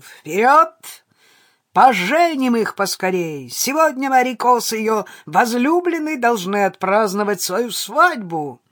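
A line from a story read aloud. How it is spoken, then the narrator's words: Loud shout. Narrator (Russian): громко прокричал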